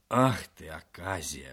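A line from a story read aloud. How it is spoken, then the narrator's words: Old man grumbling. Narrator (Russian): ворчал старик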